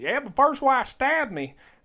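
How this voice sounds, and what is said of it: Imitates a backwoods mechanic's accent. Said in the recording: “I got to do it in the accent”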